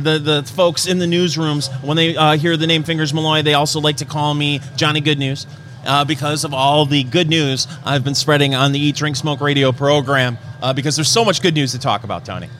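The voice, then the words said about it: Sarcastic exaggerated radio announcer voice. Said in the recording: “That's the sarcasm radio voice”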